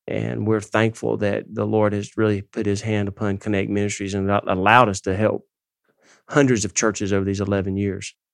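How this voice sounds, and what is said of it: Southern American accent. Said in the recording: “If you guys can't tell from our accent, we are from the South ... it's unmistakable”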